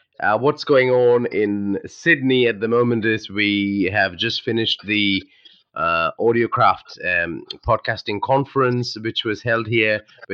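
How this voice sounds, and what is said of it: Deeper than usual, head-cold voice. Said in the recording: “I have a bit of a head cold, so you can tell that my voice is deeper than usual.”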